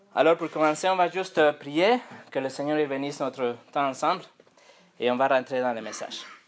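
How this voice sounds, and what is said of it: Accented French speech. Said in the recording (French): “mon accent français”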